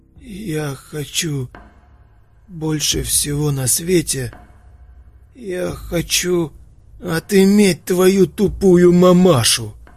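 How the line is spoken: Angry rasp. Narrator (Russian): гневно прохрипел Ророк

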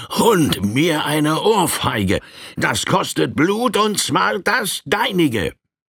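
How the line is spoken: Furious roar. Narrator (German): Dieser brüllte in wütendem Tone

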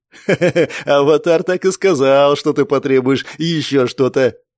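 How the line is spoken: Pleased laugh, guard. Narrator (Russian): довольно рассмеялся страж

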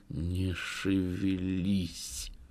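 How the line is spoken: Menacing whispered warning. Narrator (Russian): приятель грозным шепотом предостерег

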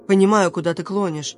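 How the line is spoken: Plain. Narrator (Russian): ответил Зарум

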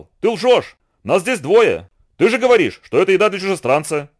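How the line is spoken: Spider shouting. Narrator (Russian): Паук закричал

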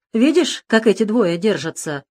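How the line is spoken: Angry. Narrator (Russian): зло сказал он

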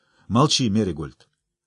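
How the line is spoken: Quiet. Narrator (Russian): тихо сказал

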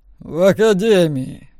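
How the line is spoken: Growled. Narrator (Russian): рыкнул Белтайн

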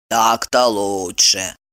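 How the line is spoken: Grumbled. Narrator (Russian): буркнула Пенелопа

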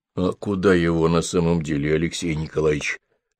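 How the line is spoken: Asked in undertone. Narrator (Russian): спросил Петр Лыков вполголоса

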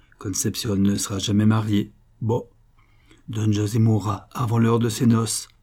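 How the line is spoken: Muffled, hollow voice. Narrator (French): dit la gitana d'une voix sourde

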